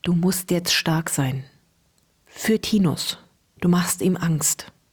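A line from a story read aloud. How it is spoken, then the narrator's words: Whispering in ear. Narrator (German): flüsterte ihr ins Ohr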